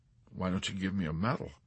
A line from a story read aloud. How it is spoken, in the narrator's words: Yusurian suggested timidly